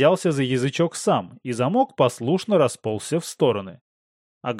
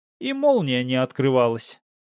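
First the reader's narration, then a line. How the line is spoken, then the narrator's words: Snorting scoff. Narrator (Russian): хмыкнул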